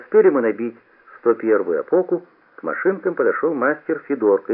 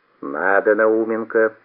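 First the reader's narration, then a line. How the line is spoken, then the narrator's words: Stern. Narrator (Russian): строго сказал Федорко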